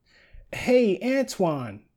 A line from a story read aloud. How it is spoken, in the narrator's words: Heidi shouted